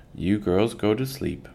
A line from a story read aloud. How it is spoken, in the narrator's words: Ma murmured